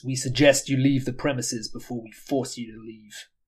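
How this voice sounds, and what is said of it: Deliberately bad put-on accent. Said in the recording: “my bad accent”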